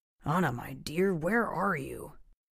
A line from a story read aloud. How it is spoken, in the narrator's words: Sergeant Flores mumbled to himself